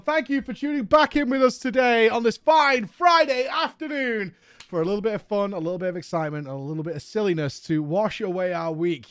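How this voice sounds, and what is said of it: Hoarse, strained voice. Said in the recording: “my voice is going. It is shredded”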